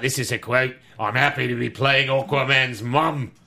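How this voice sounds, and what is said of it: Put-on Australian accent. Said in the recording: “I never put on my Aussie voice ... I got to sound like a brushman ... Nailed it ... Spot on ... Just like Nicole Kidman. That was crazy. Spot on.”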